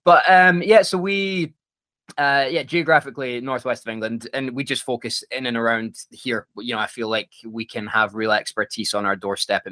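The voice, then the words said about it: Scottish accent. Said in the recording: “I don't know if I can call myself Scottish anymore. I still do, of course. And the accent comes out a bit stronger”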